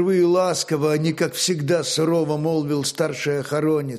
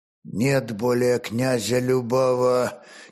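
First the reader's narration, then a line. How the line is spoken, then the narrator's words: Forced out with effort. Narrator (Russian): через силу выдавил охоронец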